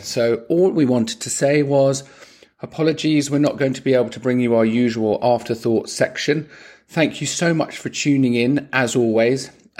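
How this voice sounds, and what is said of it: Hoarse, croaky voice. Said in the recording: “I don't know if you can hear, but I have lost my voice. ... I'm Mr. Croaky McCroak today.”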